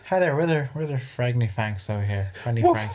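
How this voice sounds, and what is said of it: Put-on Irish accent. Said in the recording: “Why are they Irish?”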